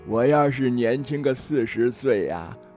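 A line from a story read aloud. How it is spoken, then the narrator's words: Tutting sigh. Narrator (Chinese): 只听她嘴里发出啧啧的叹声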